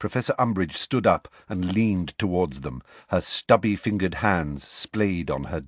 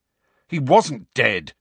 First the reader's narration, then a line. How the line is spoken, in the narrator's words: said Harry angrily